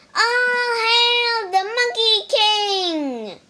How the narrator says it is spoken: They shouted

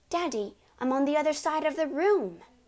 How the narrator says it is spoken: Matilda said

